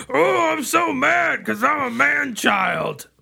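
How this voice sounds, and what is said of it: Imitates another person's voice. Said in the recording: “does a masterful Adam Sandler impression”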